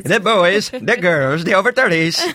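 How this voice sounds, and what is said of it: Stiff TV presenter impression, sounds Irish. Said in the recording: “your Steve Jones impression ... he's very stiff ... That sounded Irish ... That's totally Steve Jones. That's how he does it.”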